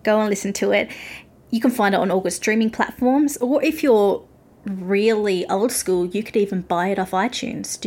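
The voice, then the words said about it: Australian accent. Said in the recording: “my Australian accent and weird pronunciation”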